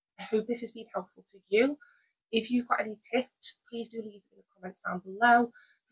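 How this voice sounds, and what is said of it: Strained, fading voice. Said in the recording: “I can feel my throat is, my voice is starting to go and it's really itchy”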